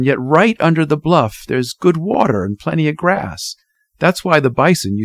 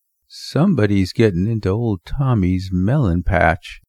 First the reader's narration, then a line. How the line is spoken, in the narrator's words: Fritz murmured sleepily